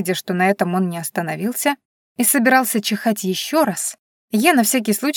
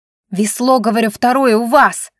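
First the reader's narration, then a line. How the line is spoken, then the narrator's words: Loud bark. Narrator (Russian): гаркнула я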